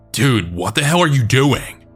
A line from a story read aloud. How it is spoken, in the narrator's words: Dan then instinctively yelled at him